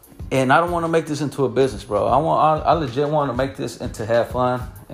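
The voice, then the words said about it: Out of breath. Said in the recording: “why am I out of breath?”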